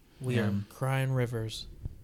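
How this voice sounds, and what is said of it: Sarcastic delivery. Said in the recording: “Why do you sound so sarcastic,”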